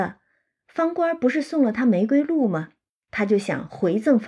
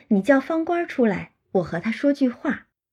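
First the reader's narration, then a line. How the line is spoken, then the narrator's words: Laughing. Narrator (Chinese): 五儿就笑说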